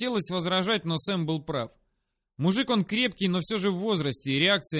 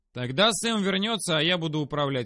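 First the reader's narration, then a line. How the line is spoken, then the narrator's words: Plain. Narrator (Russian): ответил я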